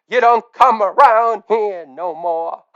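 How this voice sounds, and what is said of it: Crooning, imitates another person's voice. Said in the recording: “croons in his best Tom Petty voice”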